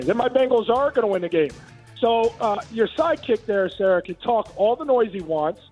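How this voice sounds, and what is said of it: Hoarse, worn-out voice. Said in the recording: “My voice is already shot because I had a FaceTime with my buddies getting juiced up for this weekend”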